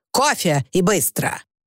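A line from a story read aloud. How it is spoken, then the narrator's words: Stern menacing announcement. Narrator (Russian): объявить Честертон, грозно сверкая глазами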